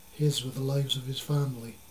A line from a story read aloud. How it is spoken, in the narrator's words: Zipa said sadly